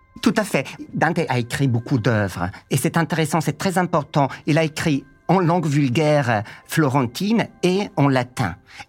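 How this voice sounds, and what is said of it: Italian accent speaking French. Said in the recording (French): “vous avez ce magnifique accent italien”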